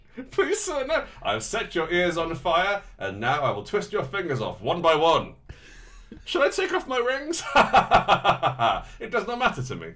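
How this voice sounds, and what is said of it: Put-on Turkish accent. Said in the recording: “This is a Turkish accent, did you not know?... This is the voice I have.”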